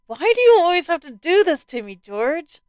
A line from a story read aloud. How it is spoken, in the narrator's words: Laughing at herself, she cried out